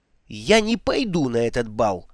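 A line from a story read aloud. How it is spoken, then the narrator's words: Sudden snap. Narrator (Russian): вдруг огрызнулась она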